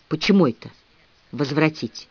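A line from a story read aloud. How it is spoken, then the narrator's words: Angry whisper in ear. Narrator (Russian): Милли сердитым шепотом заговорила мне в ухо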